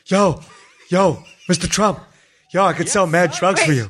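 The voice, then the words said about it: Jesse Pinkman character voice. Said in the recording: “Jesse, would you work for Don?”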